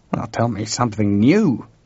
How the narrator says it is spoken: George growled

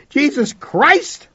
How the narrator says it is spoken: I shouted

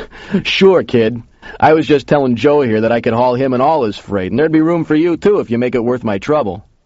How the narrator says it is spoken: The big guy laughed and said

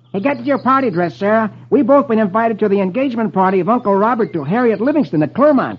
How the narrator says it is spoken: Dick exclaims gaily

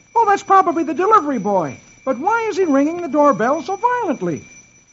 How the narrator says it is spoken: Dagwood exclaims

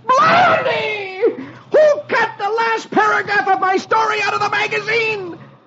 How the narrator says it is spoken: Dagwood yells

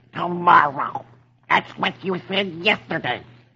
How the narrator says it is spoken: Donald says angrily

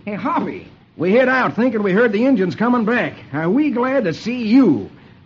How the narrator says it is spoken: Lucky exclaims

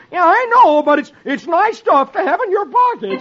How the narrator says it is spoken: Donald yells

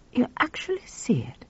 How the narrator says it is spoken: asked quietly

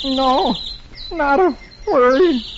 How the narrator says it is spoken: Dagwood moans

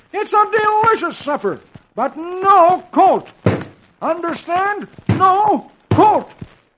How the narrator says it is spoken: Dagwood pounds the table fiercely and roars

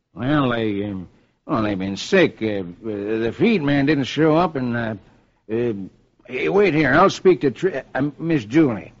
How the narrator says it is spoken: Mel stammers

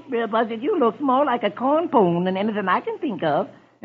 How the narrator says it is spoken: Brer Rabbit giggles

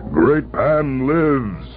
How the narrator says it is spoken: he cried

